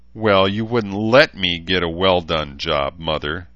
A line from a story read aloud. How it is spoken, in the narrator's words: she spat furiously